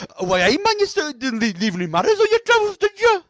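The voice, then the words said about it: Put-on Geordie accent. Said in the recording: “Like that. It's just like a proper Geordie accent.”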